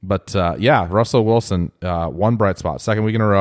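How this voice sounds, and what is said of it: Usual voice. Nothing is said of it.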